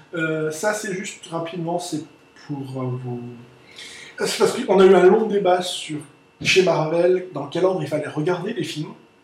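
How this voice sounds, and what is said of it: German-sounding Alsatian accent. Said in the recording (French): “Pourquoi tu prends cet accent euh, allemand ... quand tu parles ... je suis toujours encore alsacien”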